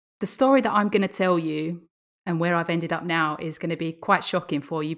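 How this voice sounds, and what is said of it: English Essex accent. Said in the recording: “from your accent, I take it you were born in Alabama, perhaps? ... No, I was born in England, in Essex ... So that's where you can hear my twang from.”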